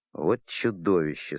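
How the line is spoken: Embarrassed mutter. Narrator (Russian): смущенно буркнул капитан

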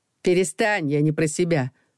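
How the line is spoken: Snorted. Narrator (Russian): фыркнула она

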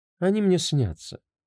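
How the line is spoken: Calm reply. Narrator (Russian): спокойно ответила заводная

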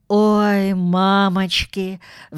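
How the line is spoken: Sighing. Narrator (Russian): вздохнул Паддингтон

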